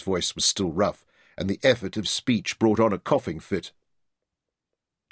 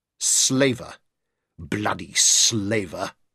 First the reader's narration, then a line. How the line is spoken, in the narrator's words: spat